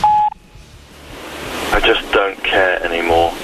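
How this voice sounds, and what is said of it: Upset, dejected tone. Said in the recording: “he sounds upset.”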